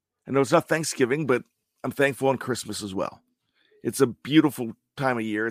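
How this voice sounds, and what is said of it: Slightly weird, sick-sounding voice. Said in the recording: “my voice sounds a little bit weird ... I came down with uh, COVID”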